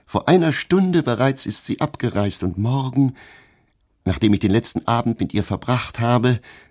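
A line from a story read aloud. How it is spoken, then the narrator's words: Laughing. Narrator (German): fügte sie lachend hinzu, den Kopf gesenkt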